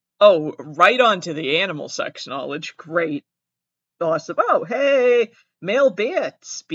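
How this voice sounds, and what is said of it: Massachusetts accent. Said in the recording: “I have an accent. I'm from Massachusetts.”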